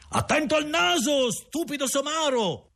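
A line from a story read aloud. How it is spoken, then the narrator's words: Louder shout. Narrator (Italian): gridò la stessa voce, questa volta più forte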